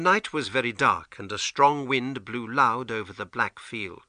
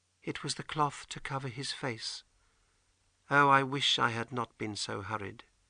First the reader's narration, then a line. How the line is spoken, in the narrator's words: she said quietly